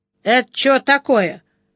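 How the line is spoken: Loud inquiry. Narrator (Russian): громко осведомился Бонни

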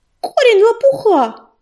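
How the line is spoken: Triumphant yelling. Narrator (Russian): завопила Белочка, бросив торжествующий взгляд

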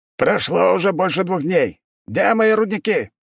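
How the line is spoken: Shouting over phone. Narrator (Russian): прокричал голос из трубки

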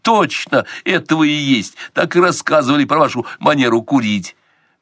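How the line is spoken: Exclamation, young man. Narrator (Russian): воскликнул юноша

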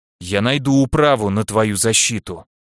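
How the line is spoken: Hateful growl. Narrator (Russian): ненавидяще прорычал Дангард

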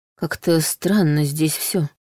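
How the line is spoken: Muttering. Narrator (Russian): пробормотал Андрей

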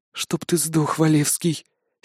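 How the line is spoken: Hateful hiss. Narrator (Russian): с ненавистью прошипела Карина

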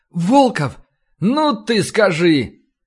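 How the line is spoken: Beaming exclamation. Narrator (Russian): он просто расплылся в улыбке и воскликнул

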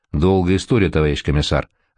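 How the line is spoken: Plain. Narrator (Russian): ответил Кольцов

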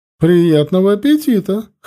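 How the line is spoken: Chuckling. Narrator (Russian): хохотнула она

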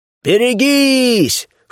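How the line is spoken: Shouted in chorus, offstage. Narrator (Russian): Хором крикнули где-то справа

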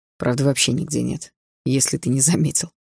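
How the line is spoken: Wry snort. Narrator (Russian): хмыкнул Даррелл

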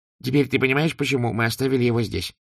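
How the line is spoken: Plain. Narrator (Russian): спросил Дубинс

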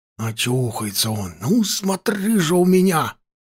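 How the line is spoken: Agitated hissing old soldier. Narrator (Russian): продолжал шипеть весь в волнениях старый солдат

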